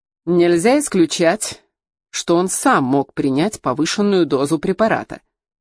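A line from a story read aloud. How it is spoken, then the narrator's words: Stern. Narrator (Russian): строго заметила Эбба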